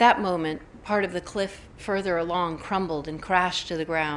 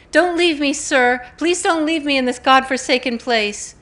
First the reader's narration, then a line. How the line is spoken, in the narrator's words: Fanny screamed again